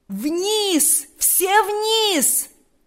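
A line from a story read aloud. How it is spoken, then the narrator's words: Loud commanding shout. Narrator (Russian): закричал генерал громким, язычным голосом, перекрывшим все звуки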